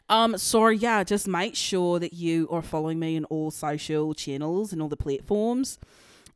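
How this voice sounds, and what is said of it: Put-on Australian accent. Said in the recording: “I'm going to do my Australian accent, as if you clearly can't tell”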